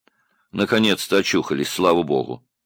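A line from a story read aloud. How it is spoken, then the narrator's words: Indifferent voice. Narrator (Russian): равнодушным голосом сказал человек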